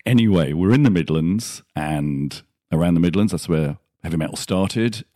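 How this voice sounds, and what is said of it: English Midlands accent. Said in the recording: “I managed to do the accent like JBDA did, but that's my accent, so it's a lot easier for me.”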